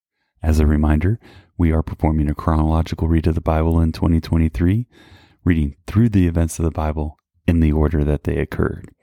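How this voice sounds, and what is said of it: Whispering, hushed voice. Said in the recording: “if you feel like I'm whispering, that's because my granddaughter is asleep in the next room”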